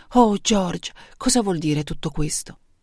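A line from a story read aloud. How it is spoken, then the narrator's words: Whispering. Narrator (Italian): la moglie sussurrare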